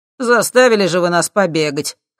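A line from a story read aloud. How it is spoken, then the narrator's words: Smirking snort. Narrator (Russian): хмыкнул один из людей Юрия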